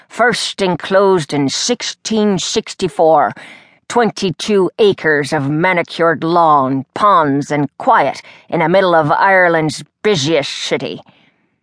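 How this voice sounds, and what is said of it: Lilting Irish brogue. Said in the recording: “he said in a lilting brogue ... Cute accent, but he could use some speech therapy for the lisp.”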